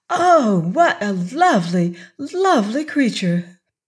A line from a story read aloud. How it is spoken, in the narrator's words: the girl exclaimed